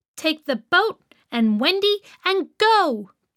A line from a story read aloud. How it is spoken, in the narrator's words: shouted to the boys